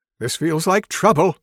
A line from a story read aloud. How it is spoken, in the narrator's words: Wilhelm says in a panicked tone